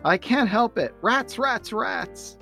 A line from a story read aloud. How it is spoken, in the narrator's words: Charlie Brown yells to the sky